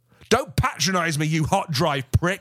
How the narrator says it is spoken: I shouted at him

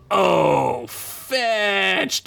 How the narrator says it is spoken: Duncan said as the dwarf laid 5 pristine hits into Duncan's stomach, causing the human to wheeze and buckle at the waist

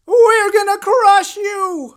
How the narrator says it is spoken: screamed Nilram, suddenly, madly

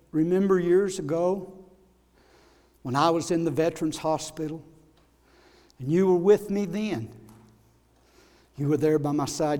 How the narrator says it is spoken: He softly said to his wife, he said

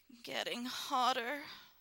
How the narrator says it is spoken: moaned

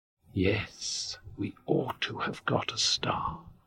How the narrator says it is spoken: whispered Moomin Mama

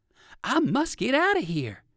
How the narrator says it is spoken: cried Uncle Wiggily

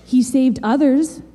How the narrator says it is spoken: they scoffed

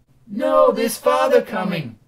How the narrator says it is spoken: cried the two young Cratchits

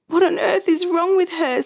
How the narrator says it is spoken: Sandy wailed

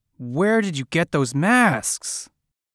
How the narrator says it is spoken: shouted

